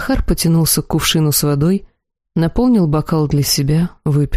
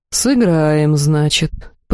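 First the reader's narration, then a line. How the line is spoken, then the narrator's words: Drawling. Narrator (Russian): протянул Тьер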